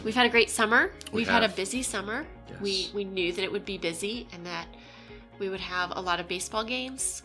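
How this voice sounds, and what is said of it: Stuffy, congested voice from a cold. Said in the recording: “my voice is all stuffy. I have a cold”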